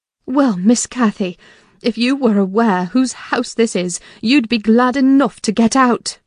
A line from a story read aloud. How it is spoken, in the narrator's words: I cried in great irritation